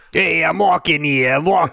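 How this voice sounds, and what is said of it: Thick New York accent. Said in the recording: “thick New York accents”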